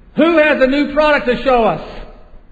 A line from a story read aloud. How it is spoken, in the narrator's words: the executive over sporting goods screamed